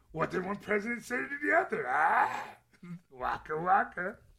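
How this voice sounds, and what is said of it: Bad Fozzie Bear character voice. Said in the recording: “Worst impression ever ... it's a fine line between Fozzie and Yoda”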